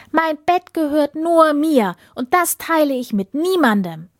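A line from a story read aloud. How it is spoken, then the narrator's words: Princess calling out. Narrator (German): rief die Prinzessin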